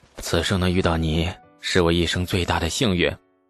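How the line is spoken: Sighing. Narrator (Chinese): 李素也叹

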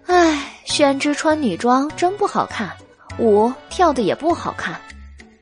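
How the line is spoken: Sighing. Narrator (Chinese): 白姬叹了一口气，说道

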